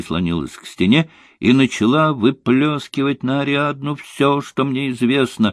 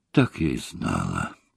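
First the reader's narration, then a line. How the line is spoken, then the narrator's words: Whispering. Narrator (Russian): прошептала она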